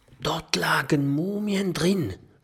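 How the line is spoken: Whisper. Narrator (German): flüstert Kokosnuss

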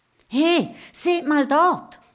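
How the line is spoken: Calling out. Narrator (German): ruft Mathilda

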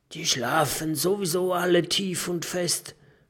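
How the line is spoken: Whisper. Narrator (German): flüstert Jim

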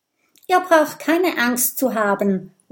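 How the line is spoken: Called out. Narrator (German): ruft Kokosnuss

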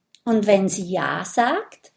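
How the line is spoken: Plain question. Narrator (German): fragt Mathilda

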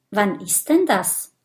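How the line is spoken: Plain. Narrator (German): fragt Kokosnuss

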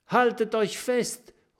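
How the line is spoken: Calling out. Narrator (German): ruft Kokosnuss

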